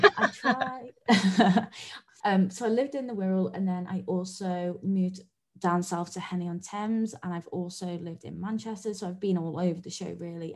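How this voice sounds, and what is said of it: British English accent. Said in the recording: “I grew up in the UK, though, as you can tell from my accent, I'm not Aussie.”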